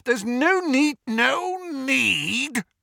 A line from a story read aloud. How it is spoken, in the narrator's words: snarled Moody